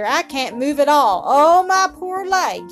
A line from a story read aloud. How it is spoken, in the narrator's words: he groaned again